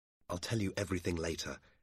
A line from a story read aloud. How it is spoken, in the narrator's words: Dobbin said quietly